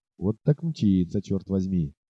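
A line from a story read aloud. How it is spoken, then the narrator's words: Quiet exclamation. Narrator (Russian): тихо воскликнул один охотник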